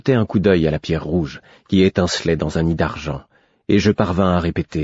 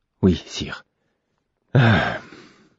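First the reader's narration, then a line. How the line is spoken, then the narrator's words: Man speaking low. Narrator (French): dit-il à mi-voix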